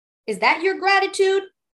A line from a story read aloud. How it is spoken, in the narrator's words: cried the youth